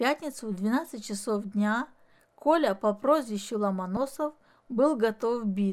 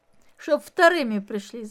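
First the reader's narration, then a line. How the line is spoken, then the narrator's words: Laughing. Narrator (Russian): засмеялся Димка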